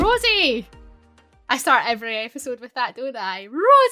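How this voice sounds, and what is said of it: Usual voice. Nothing is said of it.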